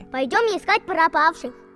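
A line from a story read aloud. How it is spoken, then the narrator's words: Cheerful child's voice. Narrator (Russian): весело улыбнулась малышка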